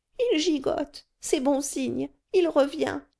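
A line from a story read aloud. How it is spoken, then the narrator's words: Exclaiming concierge. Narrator (French): s'écria la portière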